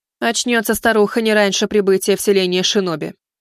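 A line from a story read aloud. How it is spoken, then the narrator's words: Plain. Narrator (Russian): сказала Кадзуми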